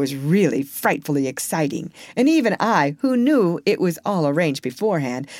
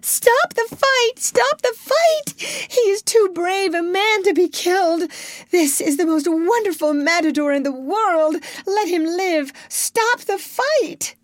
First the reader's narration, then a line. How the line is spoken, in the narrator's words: One woman in the crowd got quite hysterical and screamed up to Don Enrique